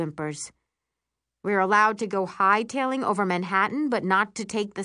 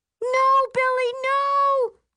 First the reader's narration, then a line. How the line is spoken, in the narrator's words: We shriek